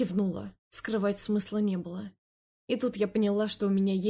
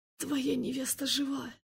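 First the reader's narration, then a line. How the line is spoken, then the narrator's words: Hoarse croak. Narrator (Russian): Прохрипела я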